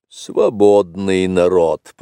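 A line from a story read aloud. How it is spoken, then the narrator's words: Grumbled. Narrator (Russian): проворчал Ка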